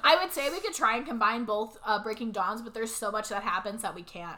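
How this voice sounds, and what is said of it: Voice going out, strained. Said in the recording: “my voice is literally like going out. It's because of the weather and from talking so much.”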